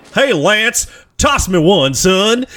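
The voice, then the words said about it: Over-the-top fake Southern accent. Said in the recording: “the actor who played the Harbor dad had the worst Southern, fake Southern accent to me. It sounded awful ... it just sounded awful ... it was a little over the top”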